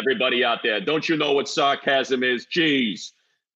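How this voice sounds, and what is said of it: Imitated New Yorker voice. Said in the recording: “that's my other New Yorker that I'm doing an impression of”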